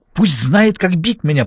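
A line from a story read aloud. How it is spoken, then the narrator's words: Hissed. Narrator (Russian): прошипел он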